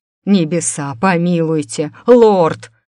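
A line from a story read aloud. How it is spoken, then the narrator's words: Roaring. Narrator (Russian): проревел повар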